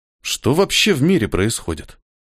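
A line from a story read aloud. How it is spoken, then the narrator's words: Sighing. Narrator (Russian): Вздохнул он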